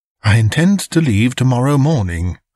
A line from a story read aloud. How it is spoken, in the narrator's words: answered, in a pacifying voice